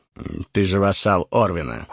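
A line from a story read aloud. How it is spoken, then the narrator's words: Cold reminder. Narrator (Russian): холодно напомнил мой хозяин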